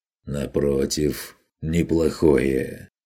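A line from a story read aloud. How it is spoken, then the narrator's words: Mocking retort. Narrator (Russian): возразил Конрад насмешливо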